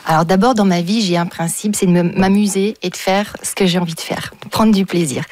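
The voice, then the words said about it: Slight unusual accent in French. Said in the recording (French): “j'ai un petit accent un peu particulier”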